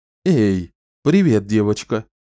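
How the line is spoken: Exclaimed. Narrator (Russian): воскликнул Ричард

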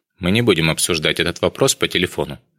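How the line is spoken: Plain. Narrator (Russian): наконец сказал он

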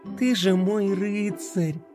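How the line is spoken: Tender. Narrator (Russian): Нежно произнесла Пинки

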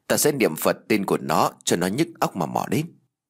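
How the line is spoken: Whispered. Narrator (Vietnamese): Tôi lại thì thào

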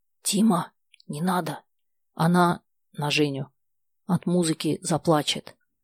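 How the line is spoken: Whispered. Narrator (Russian): Коля Колокольчиков шепотом

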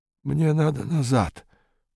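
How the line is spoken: Muttered. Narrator (Russian): пробормотал незнакомец

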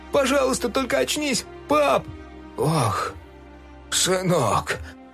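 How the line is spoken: Moaning. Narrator (Russian): простонал док

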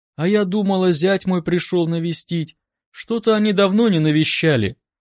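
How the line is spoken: Sad, woman. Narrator (Russian): грустно проговорила женщина

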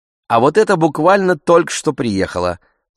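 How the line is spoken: Confiding, as if secret. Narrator (Russian): сказала продавщица словно выдавая большую тайну

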